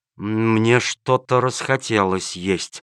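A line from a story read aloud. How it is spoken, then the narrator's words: Shaken, astonished mutter. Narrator (Russian): пробормотал начальник полиции, глотая слюну и понемногу приходя в себя от изумления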